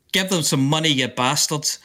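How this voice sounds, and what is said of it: Imitates another person's voice, accurate accent. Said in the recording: “that's my Bob Geldof moment ... With an accurate accent as well. Very good.”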